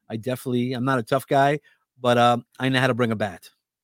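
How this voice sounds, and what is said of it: New York accent. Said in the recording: “I have a New York accent.”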